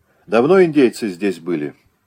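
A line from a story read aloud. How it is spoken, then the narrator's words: Calmer question. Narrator (Russian): спросил он уже более спокойно у Левонтия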